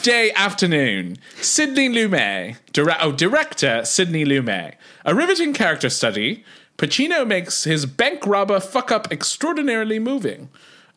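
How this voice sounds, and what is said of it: Put-on Cockney British accent. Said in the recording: “my British accent, which is like Liza Doolittle before... straight up Cockney.”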